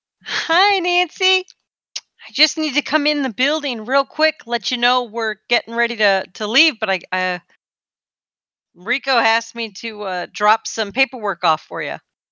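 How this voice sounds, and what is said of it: Sweet fake voice. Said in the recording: “Just putting on that same sweet fake voice.”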